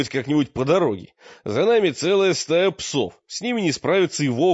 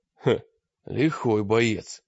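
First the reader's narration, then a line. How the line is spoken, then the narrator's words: Admiring mutter. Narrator (Russian): пробормотал мрак с невольным восхищением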